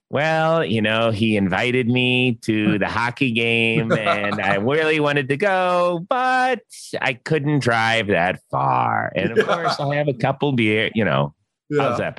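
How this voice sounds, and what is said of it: Imitates another person's voice. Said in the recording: “Is that a good impression or no? ... That's pretty good ... It was a good impression ... Scale of 1 to 10, like a 6.”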